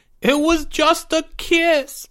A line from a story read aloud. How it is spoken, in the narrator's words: Porge sobbed